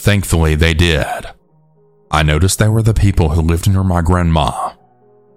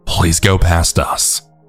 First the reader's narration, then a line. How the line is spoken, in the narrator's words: repeated saying to ourselves